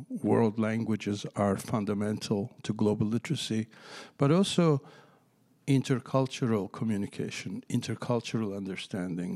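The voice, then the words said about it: Non-native English accent. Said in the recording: “my accent gives it away. I am not a native speaker of this country.”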